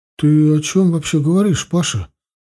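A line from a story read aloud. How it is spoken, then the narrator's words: Grandmother's uncertain voice. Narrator (Russian): сказала неуверенно бабушка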